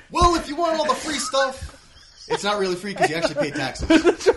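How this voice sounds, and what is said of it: Bernie Sanders impression. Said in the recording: “your Bernie Sanders impression ... that impression”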